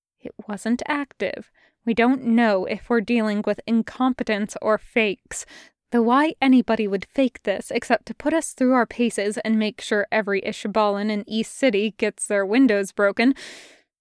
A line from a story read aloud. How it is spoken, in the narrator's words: angry at himself said in a low voice